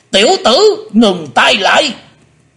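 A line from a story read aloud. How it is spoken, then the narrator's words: Shouted. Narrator (Vietnamese): Hải Âu quái khách quát lên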